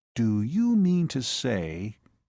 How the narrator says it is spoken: he said slowly

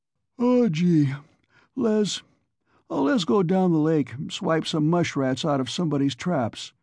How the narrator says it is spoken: Cy was yawning

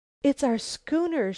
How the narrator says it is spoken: exclaimed

